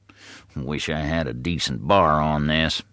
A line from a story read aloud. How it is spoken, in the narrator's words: the farmer muttering